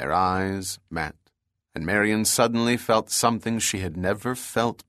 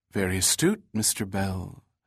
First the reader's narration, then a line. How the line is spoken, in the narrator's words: said Marion, her voice trailing off